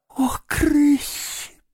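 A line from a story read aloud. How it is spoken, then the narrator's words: Moaning. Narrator (Russian): простонал крот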